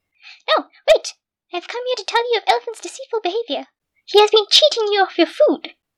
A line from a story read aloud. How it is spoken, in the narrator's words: Squirrel squealed frantically